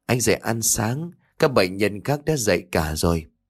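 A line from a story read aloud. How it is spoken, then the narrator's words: Soft gentle voice. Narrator (Vietnamese): Tiếng nói nhỏ nhẹ của cô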